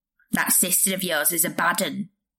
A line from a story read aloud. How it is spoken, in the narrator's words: he growled